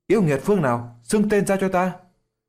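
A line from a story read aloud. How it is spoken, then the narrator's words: Two voices, low growl. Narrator (Vietnamese): Hứa Triệu Lân cùng Đàm Tư Mai thấp giọng quát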